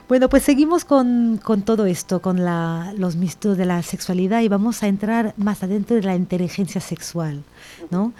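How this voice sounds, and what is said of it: French accent. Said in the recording (Spanish): “con este acento francés”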